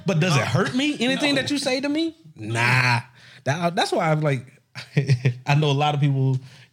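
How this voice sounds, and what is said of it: Speaks with a twang. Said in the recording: “My twang is my twang. The way I my slang is my slang.”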